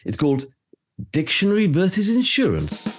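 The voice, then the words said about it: Game show host voice. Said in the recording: “Sorry, I didn't put on my game voice.”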